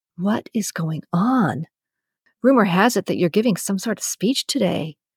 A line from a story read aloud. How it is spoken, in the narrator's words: whispers